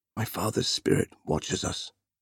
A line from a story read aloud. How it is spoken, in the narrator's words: murmured